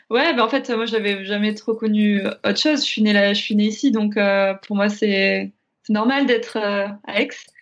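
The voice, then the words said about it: Slight southern French regional accent. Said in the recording (French): “on entend bien le petit accent”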